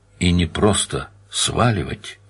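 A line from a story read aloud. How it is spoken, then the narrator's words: Soft speech. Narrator (Russian): тихонько сказал Данил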